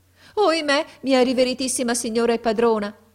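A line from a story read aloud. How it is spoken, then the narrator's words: Exclaiming. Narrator (Italian): ella esclamò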